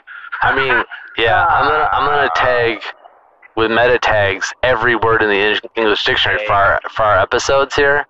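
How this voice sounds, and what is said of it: Nasal, sing-song Midwestern accent. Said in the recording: “I have a beautiful accent. ... It has sing-song quality to it. ... nasally. ... Midwestern, Michigander sensibility and a little bit of Japanese sing-song.”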